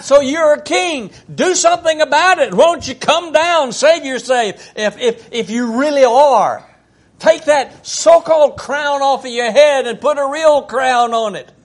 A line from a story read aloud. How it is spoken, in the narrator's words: hollered out